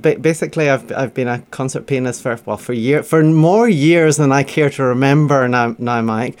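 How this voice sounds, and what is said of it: Glaswegian Scottish accent. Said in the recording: “the accent you hear is actually from Glasgow. It's what a sober Glaswegian actually sounds like.”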